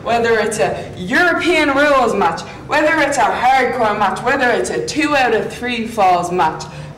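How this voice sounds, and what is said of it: Thick Irish accent. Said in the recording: “Thick accent there. ... Thick accent. ... Do you think she's playing it up some too, in addition to it being really thick ... give us the full Irish.”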